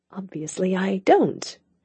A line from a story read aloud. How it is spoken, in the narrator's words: she said under her breath